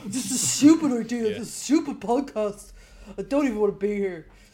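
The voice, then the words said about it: Imitates another person's voice. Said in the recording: “best impression of me so far ... Spot on.”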